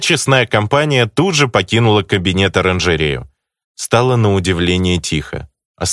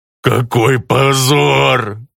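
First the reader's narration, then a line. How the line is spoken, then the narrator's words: Growled. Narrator (Russian): прорычал артефактор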